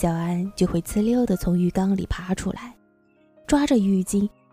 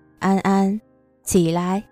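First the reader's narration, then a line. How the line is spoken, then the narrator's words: Calm, mild. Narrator (Chinese): 傅君言……淡淡的说上一句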